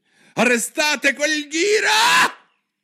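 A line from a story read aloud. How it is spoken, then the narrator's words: Queen shrieking. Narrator (Italian): strillò la regina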